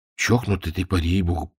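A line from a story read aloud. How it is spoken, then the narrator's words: Grumble. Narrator (Russian): проворчал он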